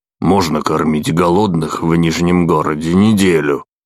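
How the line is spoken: Grumbling. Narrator (Russian): проворчал Бран

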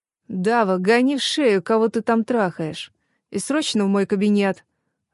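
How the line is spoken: Impatient growl. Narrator (Russian): рыкнул нетерпеливо

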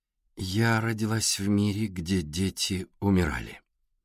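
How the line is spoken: Slow. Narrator (Russian): медленно сказала Александра

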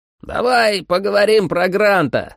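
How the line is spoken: Yelled into ear. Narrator (Russian): заорал он мне в ухо

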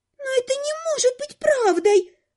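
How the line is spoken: Thin squeak, skinny girl. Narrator (Russian): пискнула одна из них, самая тощая

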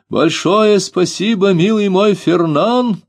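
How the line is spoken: Shouted. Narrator (Russian): крикнул он в сторону леса

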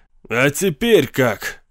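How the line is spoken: Shouted out. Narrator (Russian): выкрикнул Каслмолд

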